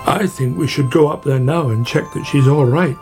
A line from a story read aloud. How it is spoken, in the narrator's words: said Badger